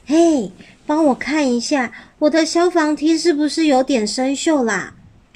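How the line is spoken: Very quiet whisper. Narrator (Chinese): 小一悄悄的祈祷，小小声的说

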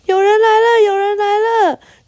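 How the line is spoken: Shouting while running. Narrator (Chinese): 他们边跑边喊

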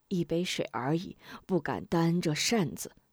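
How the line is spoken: Old man chuckling. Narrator (Chinese): 老汉呵呵一笑

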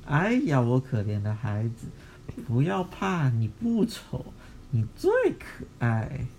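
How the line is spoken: Gentle, tender. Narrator (Chinese): 他妈妈还是很温柔的 说

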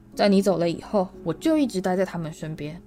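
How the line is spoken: Angry. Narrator (Chinese): 庞瑞夫人愤怒地说

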